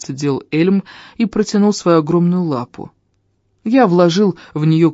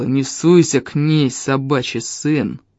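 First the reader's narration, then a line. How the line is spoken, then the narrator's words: Growl. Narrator (Russian): прорычал Эльм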